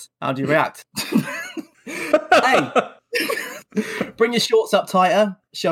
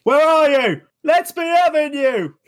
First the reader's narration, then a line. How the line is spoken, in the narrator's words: Delia Smith shouting